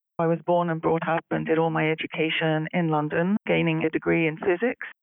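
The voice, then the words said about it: British English accent. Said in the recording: “from my accent, you can probably tell that I'm originally from the UK”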